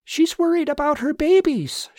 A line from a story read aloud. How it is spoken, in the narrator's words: she called out to the trooper